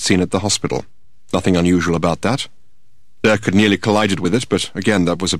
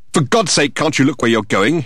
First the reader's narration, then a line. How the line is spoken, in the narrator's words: he exclaimed